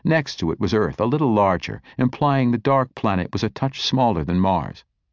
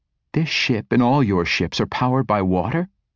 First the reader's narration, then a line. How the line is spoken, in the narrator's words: Asha scoffed